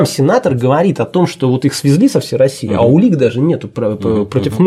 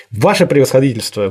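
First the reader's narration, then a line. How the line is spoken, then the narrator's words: Exasperated, irritated. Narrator (Russian): выведенный из себя, раздраженно произнес Кони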